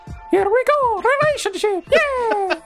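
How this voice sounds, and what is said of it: Imitates Mario's voice. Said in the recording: “Can you do a Mario ... saying relationship?”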